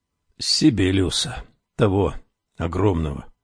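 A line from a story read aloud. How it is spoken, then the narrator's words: Embarrassed mumble, lips barely moving. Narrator (Russian): смущенно пробормотал он, почти не разжимая губ, словно напрасно оговаривал кого-то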